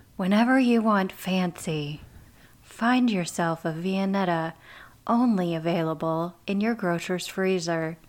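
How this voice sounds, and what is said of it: Smooth commercial radio announcer voice. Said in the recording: “That was the perfect voice for the commercials ... That's my radio voice for you ... It's exactly what these commercials sound like.”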